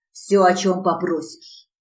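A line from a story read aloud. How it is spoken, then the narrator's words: Growling. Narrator (Russian): рычал Риман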